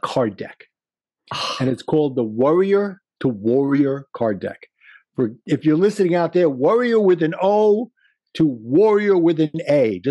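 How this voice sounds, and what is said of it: Brooklyn accent. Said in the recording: “my Brooklyn accent”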